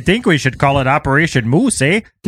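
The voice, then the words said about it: Put-on Canadian accent. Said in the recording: “that was the best Canadian any of us did ... I thought you were doing a New York mobster accent ... I didn't realize it was Canadian”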